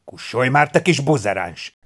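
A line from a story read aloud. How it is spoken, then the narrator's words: Man's angry hiss. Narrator (Hungarian): sziszegte a férfi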